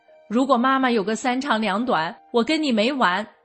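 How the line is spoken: Loud angry roar. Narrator (Chinese): 大儿子大声地对妹妹吼道

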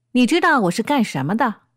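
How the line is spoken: Angry. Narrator (Chinese): 立即露出怒相，呼一下站起来说

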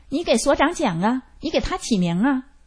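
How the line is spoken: Old woman, loud, disapproving. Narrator (Chinese): 有一个老太太不认可，大声说

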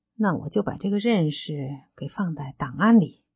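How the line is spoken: Voice fading quieter. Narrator (Chinese): 他的声音开始由大变小，最后说

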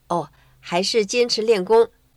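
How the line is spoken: Embarrassed. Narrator (Chinese): 她不好意思说

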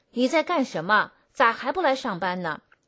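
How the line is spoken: Loud. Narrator (Chinese): 他 大声说

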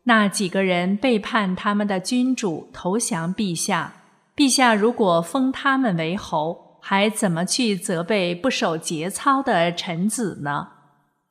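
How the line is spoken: Plain. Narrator (Chinese): 景帝说

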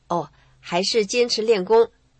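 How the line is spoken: Embarrassed. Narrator (Chinese): 她不好意思说

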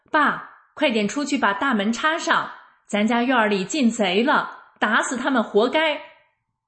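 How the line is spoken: Loud shout. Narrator (Chinese): 小姑子大声喊我公公

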